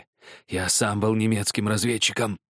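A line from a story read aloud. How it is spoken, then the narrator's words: Hoarse rasp. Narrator (Russian): прохрипел Гельмут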